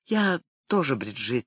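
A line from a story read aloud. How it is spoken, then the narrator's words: Quiet. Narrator (Russian): тихо произнесла она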